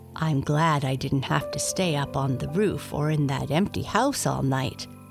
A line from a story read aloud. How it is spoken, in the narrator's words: thought, purring away and beginning to feel a bit sleepy